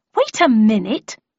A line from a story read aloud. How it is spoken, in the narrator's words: exclaimed, almost wanting to laugh at the situation